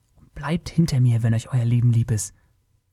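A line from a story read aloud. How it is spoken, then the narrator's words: Whisper. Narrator (German): flüsterte Taurus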